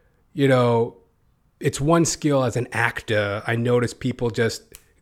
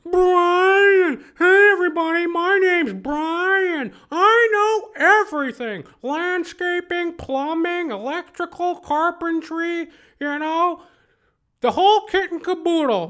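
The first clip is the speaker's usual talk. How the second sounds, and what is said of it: Impersonated character voice. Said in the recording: “my impersonations ... I've been recently thinking about this guy,”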